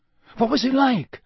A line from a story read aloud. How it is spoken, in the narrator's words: said Harry eagerly